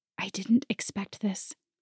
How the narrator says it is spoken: she whispered

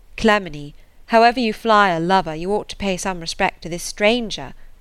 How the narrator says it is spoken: Trefry cried

